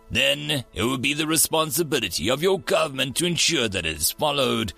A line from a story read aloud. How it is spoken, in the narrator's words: growled Hehok